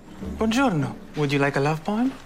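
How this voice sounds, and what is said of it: Italian accent. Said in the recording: “is that a real Italian accent?”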